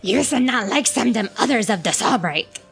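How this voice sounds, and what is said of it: Gungan character accent. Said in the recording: “your accent is throwing me off”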